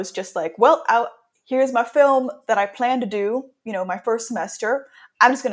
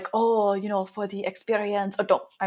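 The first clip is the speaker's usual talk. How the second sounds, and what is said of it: Put-on accent quoting teachers. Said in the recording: “I'm so sorry for this accent... I'm dropping the accent.”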